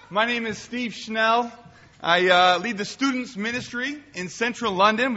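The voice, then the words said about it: Boston-influenced American accent. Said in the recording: “This silly accent of mine, I picked it up 30 years in Boston, Massachusetts.”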